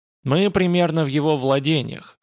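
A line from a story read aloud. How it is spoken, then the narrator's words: Plain. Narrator (Russian): сказал он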